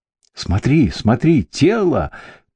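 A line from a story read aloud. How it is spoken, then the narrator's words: Piercing scream. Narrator (Russian): пронзительно закричал Бенедикт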